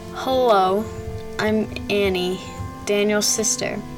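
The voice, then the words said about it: Shaky voice. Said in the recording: “in a shaky voice”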